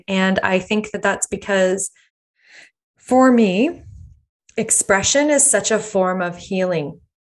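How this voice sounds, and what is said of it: Shaky, emotional voice. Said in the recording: “my voice is a little shaky”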